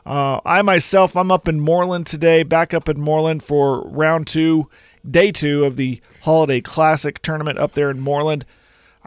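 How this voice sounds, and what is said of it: Sick-sounding voice. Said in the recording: “Not feeling so hot. And you can probably hear it in my voice. I'm still trying to cough it out.”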